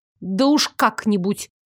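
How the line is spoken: Snapping retort. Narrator (Russian): Огрызнулась

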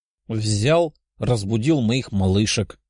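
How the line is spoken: Young man grumbling. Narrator (Russian): проворчал парень

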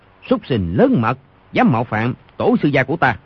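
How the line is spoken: Stern shout. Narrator (Vietnamese): quát

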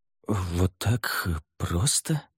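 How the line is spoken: Muttered. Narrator (Russian): пробормотал он

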